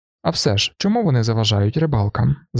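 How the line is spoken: Plain. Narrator (Ukrainian): запитав Гельсен

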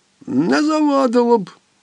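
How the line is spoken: Cleaner grumbling. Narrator (Ukrainian): буркнув чистильник

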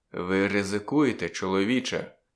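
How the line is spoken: Quiet. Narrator (Ukrainian): нарешті тихо проказав він

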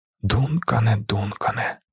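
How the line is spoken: Male whisper. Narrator (Ukrainian): прошепотів він

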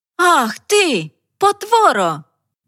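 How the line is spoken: Loud shout. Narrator (Ukrainian): Голосно закричавши

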